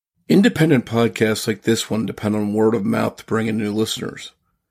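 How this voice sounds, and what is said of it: Rough voice from a cold. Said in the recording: “I'm battling a cold, so please forgive me if my voice sounds a little rough.”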